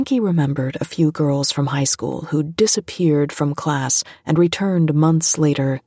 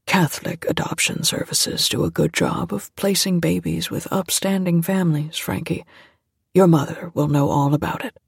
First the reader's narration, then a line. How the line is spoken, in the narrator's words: said softly